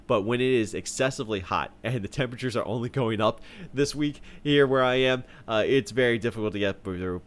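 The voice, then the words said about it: Voice sounds sick with a cold. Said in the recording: “I am battling a pretty heavy cold right now. So if you can hear it in my voice ... you hear me sounding a little bit differently.”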